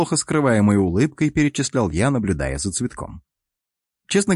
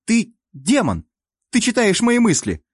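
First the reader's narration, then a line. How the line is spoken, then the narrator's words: Sudden cry. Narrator (Russian): Неожиданно вскрикнула девушка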